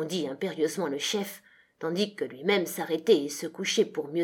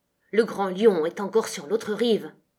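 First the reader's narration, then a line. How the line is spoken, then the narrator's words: Rumbling, fading voice. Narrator (French): La voix grondante décroissait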